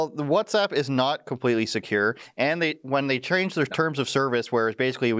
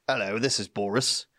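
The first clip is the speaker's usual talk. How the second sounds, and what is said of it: Boris Johnson impression, British accent. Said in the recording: “There it is, the accent. Love it, mate.”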